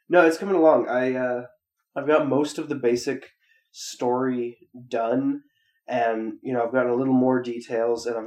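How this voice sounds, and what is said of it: Rough voice with throat clearing. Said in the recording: “I can hear my voice being fucked up again. I'm sorry for my voice, and I'm sorry if I have to leave some of the clearing my throat in.”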